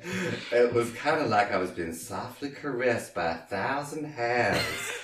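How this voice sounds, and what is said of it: Consistently held put-on accent. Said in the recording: “your accent has been very consistent up to this point.”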